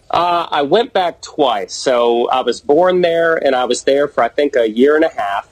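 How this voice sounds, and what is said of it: Mixed Southern twang accent. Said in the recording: “that's where my twang started ... a different type of twang ... a little bit twangy ... I just got a weird voice.”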